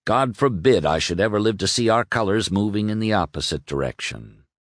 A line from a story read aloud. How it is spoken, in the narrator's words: Lee dropped his jesting manner and said gravely